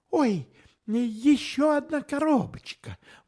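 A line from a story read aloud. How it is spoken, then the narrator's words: Exclaiming. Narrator (Russian): воскликнула Анна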